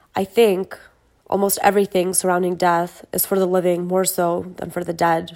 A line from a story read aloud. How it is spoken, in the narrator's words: said